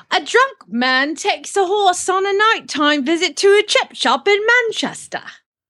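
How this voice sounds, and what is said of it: Poor put-on British cockney accent. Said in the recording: “my best British accent ... God, I sound terrible ... It's embarrassing ... Like a cockney.”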